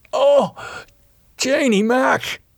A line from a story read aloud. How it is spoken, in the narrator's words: he gasped